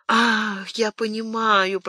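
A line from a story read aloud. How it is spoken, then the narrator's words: Anxious whisper. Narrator (Russian): прошептал Планше, еще более встревоженный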